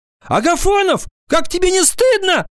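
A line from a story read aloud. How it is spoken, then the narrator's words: Deeply offended shout. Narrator (Russian): закричала до глубины души оскорбленная за Алика Тося Одуванчикова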